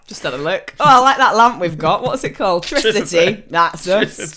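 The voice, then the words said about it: Put-on Yorkshire accent. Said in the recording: “I'm just giving my Yorkshire accent.”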